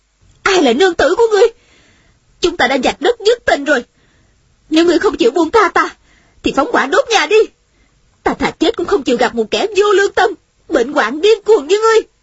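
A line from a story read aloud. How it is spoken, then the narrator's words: Angry woman. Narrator (Vietnamese): Nữ nhân trong nhà giận dữ nói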